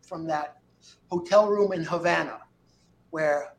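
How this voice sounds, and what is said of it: Usual voice. Nothing is said of it.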